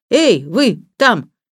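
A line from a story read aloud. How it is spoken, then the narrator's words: Shouting. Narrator (Russian): крикнул он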